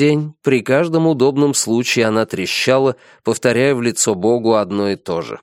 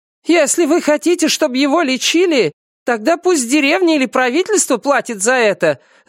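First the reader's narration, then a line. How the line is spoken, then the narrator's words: Shouting. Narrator (Russian): закричала Юйлянь на секретаря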